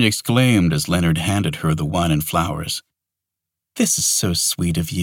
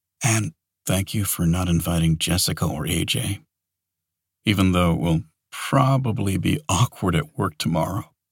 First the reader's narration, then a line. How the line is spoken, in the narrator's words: he said quietly